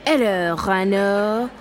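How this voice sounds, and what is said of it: Bad put-on French accent. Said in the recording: “You've always had a terrible French accent”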